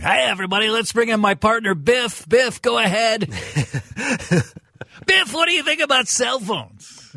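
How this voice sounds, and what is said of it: Over-the-top radio host voice. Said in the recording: “Give me your over-the-top radio voice”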